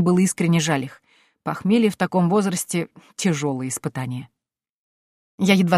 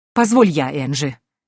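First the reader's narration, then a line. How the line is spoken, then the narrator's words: Countess, irritated interruption. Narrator (Russian): Раздраженно перебила графиня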